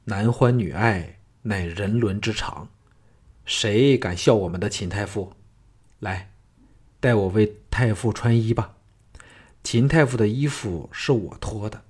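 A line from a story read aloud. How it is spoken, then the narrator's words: Gentle, cheerful. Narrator (Chinese): 项少龙笑嘻嘻 柔声说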